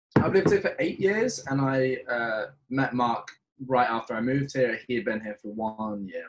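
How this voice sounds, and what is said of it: British accent. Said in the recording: “I don't really sound like one ... it's not official until ... ditches the accent ... I just pretend to be a Brit ... Oh, he's British”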